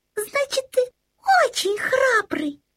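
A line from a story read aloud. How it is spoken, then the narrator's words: Exclamation. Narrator (Russian): воскликнул пуховый комочек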